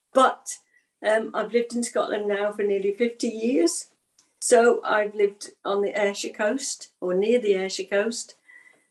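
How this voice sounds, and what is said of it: English Midlands accent. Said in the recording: “you can probably tell from the accent, in the middle of England”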